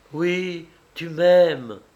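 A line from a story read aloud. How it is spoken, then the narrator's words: Tender exclamation. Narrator (French): s'écria-t-elle tendrement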